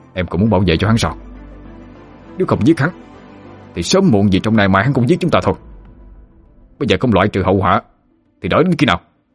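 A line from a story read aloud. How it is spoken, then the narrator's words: Furious shout. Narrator (Vietnamese): Hắn điên tiết quát lên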